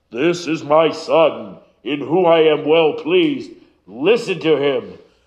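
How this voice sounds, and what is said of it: Attempted deep resonant God voice. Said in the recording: “in a God voice, ... your pastor is a tenor. I will never have that deep, resonant God voice, but I'll do my best.”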